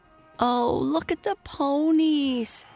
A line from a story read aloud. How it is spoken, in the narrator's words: cried Mabel